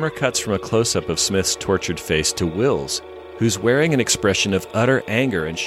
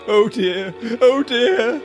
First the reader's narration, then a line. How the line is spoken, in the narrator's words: all the distraught doctor can manage is to pathetically moan